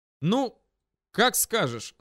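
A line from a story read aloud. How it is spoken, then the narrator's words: Loud and clear. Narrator (Russian): сказал я громко и отчетливо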